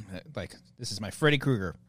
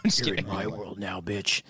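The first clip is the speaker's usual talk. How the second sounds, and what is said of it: Imitates horror villain Freddy Krueger's voice. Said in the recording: “my horrible Freddy Krueger impression ... You need more bass ... That one feels like softer ... Like you're scared to say it”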